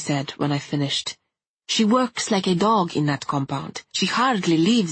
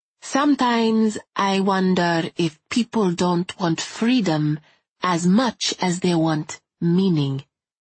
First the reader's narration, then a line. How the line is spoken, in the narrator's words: he said, speaking slowly